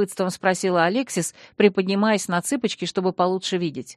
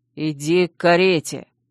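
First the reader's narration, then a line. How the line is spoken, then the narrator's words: Hissing. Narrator (Russian): прошипел Чейз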